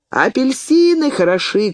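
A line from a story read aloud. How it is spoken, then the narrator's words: Vendor shouting nearby. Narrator (Russian): крикнул возле меня разносчик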